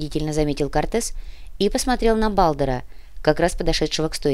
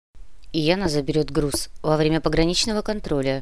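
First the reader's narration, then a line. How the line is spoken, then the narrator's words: Grumbled. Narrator (Russian): буркнул Кортес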